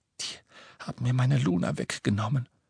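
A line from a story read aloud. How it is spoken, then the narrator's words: Whispered. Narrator (German): flüsterte er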